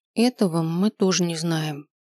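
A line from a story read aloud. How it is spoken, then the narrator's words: Quiet. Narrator (Russian): тихо сказала Лина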